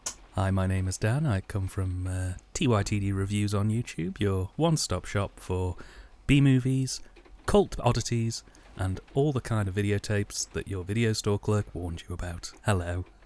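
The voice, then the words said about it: Slick radio announcer voice. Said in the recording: “very, very, very slick sort of way of plugging yourself there ... I liked the little radio voice going on.”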